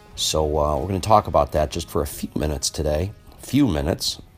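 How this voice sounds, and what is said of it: Sleepy voice. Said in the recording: “my voice is a little sleepy, it's because I'm sitting here in Minneapolis at 6 a.m. in the morning”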